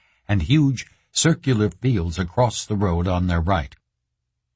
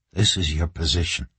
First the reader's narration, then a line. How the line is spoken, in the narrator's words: he whispered